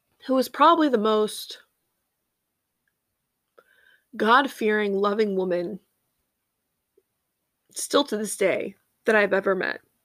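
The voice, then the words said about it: Emotional, choked-up speaking voice. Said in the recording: “Sorry, I'm getting a little emotional.”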